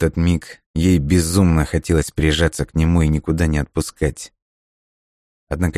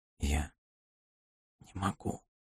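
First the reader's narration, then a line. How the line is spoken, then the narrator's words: Whispered. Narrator (Russian): прошептала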